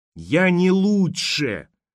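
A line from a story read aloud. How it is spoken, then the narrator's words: Yelling. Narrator (Russian): заорал Алекс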